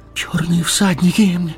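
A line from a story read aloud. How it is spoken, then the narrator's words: Breathless exclamation. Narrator (Russian): выдохнул Мэри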